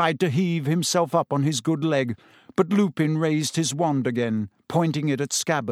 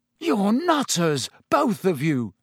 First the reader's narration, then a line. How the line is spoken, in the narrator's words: said Ron shakily